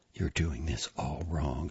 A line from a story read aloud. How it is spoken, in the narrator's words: said quietly to herself